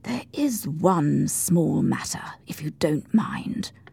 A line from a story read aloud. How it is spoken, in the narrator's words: Lowering his voice, continued